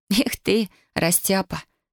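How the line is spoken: Giggling. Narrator (Russian): хихикнула она

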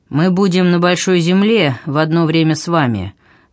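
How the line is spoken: Gloomy voice. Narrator (Russian): мрачным голосом прибавил второй

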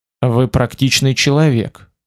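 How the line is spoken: Plain. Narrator (Russian): ответил я

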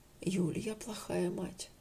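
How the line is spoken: Whispered to friend. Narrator (Russian): шепнула она подруге

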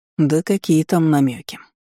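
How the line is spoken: Heavy sigh. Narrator (Russian): тяжело вздохнул князь

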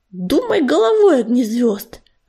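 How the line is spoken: Irritated hiss. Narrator (Russian): раздраженно прошипела Пепелица

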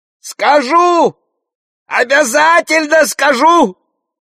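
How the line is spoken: Yelled. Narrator (Russian): завопил Горох

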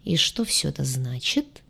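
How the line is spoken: Deep bass purr. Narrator (Russian): промурлыкала она густым басом

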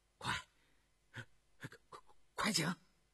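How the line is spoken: Trembling excited voice. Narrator (Chinese): 张廷玉 激动的声音发颤

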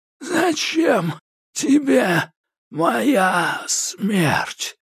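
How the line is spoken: Barely audible wheeze. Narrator (Russian): просипел едва слышно

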